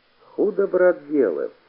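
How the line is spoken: Sad. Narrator (Russian): печально сказал полевой

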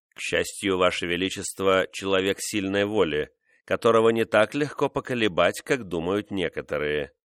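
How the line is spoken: Plain. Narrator (Russian): сказал он

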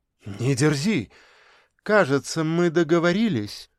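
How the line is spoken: Through gritted teeth. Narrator (Russian): процедила Женечка

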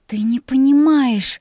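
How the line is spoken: Hiss. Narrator (Russian): зашипела на него

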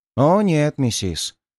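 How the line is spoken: Sad smirk. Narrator (Russian): грустно ухмыльнулся я

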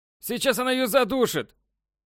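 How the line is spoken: Loud shout. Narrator (Russian): Громко выкрикнул Краузе

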